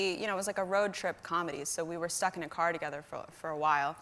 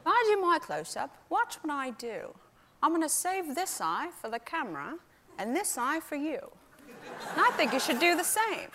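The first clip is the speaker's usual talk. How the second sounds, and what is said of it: A deliberately bad actor impression. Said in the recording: “this is a very bad impression”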